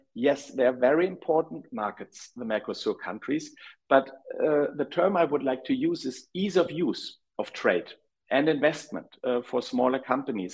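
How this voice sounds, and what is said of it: Heavy German accent. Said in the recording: “I have a rather heavy German accent”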